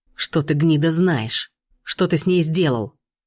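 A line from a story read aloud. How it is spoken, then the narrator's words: Frantic growl. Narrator (Russian): Волк истошно зарычал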